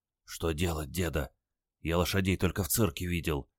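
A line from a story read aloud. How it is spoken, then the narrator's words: Glum whisper. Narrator (Russian): уныло шепнул он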